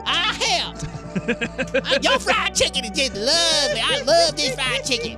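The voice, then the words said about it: Bad put-on Southern accent. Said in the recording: “these Southern accents are horrible”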